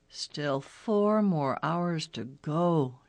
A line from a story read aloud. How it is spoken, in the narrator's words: groaned